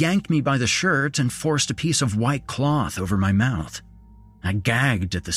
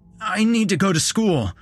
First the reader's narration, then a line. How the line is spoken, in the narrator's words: I cried